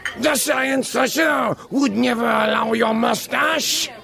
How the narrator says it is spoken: Lorette shrieked desperately

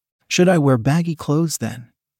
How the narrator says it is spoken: asked, laughing

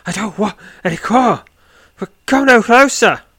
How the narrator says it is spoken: cries

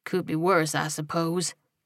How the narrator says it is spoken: he muttered to himself

